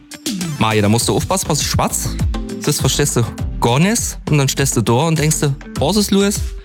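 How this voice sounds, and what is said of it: Speaks in Steinmicher Platt dialect. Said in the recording (German): “Auf Platt? ... Ich kann nur das Steinmicher Platt ... unsere Sprache”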